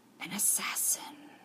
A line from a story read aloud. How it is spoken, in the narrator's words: he murmured